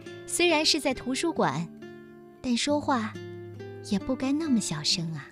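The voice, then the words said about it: Soft, faint quiet voice. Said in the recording (Chinese): “用细微的声音说”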